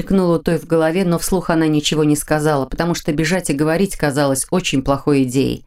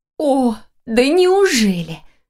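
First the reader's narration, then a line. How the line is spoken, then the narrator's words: Exclaiming near tears. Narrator (Russian): Чуть не плача воскликнула Лиля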